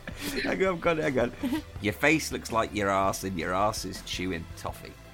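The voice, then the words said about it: Strong, hard-to-understand regional accent. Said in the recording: “it's taken me 3 years to actually understand the accent.”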